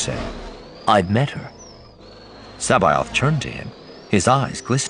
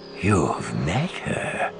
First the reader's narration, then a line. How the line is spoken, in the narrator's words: He breathed